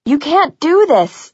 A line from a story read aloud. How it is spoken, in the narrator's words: I screamed